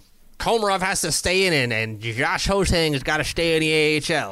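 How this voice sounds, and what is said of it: Put-on accent. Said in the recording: “I don't know why I did that accent. I just felt like it.”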